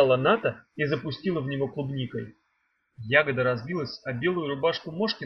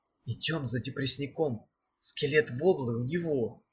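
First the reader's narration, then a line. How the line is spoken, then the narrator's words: Whisper. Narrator (Russian): шепнула Даф Мефодию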